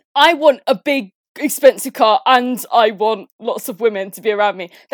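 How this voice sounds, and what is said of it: Imitates a teenage boy's voice. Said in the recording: “your teenage boy impression is spot on”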